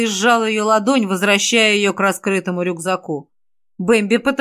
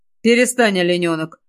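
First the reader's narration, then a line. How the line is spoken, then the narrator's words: Angry. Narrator (Russian): Уже сердито начал я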